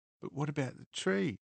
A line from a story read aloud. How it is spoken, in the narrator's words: Lo's voice floated back, high-pitched through her sobs